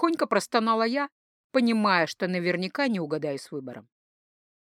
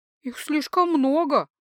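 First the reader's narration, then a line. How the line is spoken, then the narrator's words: Dejected admission. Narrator (Russian): уныло признала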